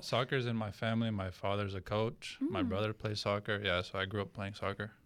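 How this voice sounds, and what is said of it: Non-local accent, apparently Romanian-influenced. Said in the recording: “He played professional soccer in Romania... That's where the accent's from... you're not from Tucson... I heard the accent... That's not the accent.”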